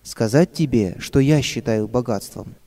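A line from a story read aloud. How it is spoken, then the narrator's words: Plain. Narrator (Russian): спросила мама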